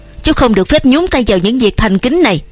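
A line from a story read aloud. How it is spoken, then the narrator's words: Snapping irritably. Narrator (Vietnamese): Ông Phủ gắt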